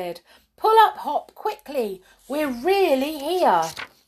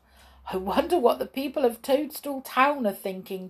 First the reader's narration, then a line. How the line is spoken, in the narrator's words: chuckled Skip